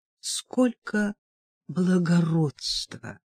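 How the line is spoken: Sighed. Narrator (Russian): вздохнула она

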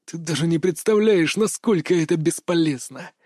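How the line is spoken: Mocking whisper. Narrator (Russian): прошепел он насмешливым голосом

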